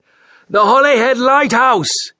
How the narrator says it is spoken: Captain Morris yelled to Hudson

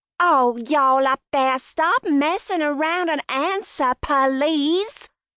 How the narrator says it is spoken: she said loudly

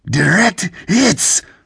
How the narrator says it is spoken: Sered exclaimed

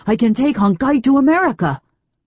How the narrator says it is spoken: Sing Tai exclaimed, astonished at her lack of interest

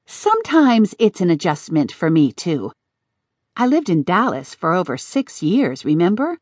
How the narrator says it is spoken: Jamie sighed

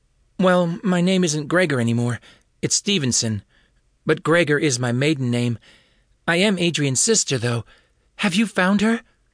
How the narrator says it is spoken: Andrea asks in a frantic voice

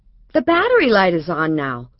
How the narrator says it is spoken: Laura said sharply, sounding like her mother

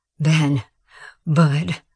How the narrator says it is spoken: panted

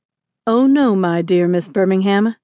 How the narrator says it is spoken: he replied calmly

